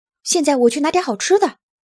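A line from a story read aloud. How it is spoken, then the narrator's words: Shouting out. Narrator (Chinese): 纳努克就喊了起来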